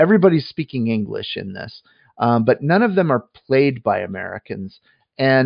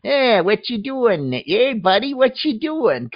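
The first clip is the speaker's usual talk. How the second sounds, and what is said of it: Exaggerated stereotypical American accent. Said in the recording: “the American accents are just awful, like really bad, like stereotypical”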